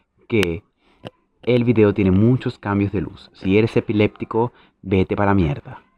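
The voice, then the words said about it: Sensual radio announcer voice. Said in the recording (Spanish): “con esta voz de locutor sensual”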